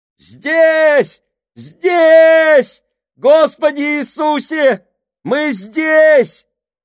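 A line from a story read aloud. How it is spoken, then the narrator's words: Shouting. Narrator (Russian): матрос закричал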